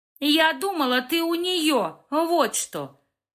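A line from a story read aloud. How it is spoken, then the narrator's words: Window-rattling scream. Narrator (Russian): Завопила Анжела так, что стекла в стеллаже звякнули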